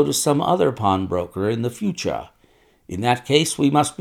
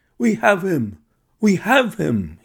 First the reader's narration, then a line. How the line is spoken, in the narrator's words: he cried